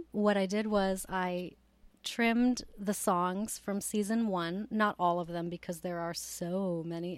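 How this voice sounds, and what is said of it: Slightly hoarse, strained voice. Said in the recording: “I'm kind of losing my voice a little bit”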